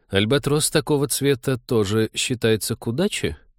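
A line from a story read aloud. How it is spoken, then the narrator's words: Shocked mutter. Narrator (Russian): пробормотал потрясенный Вениамин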